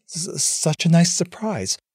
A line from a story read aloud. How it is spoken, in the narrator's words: stammered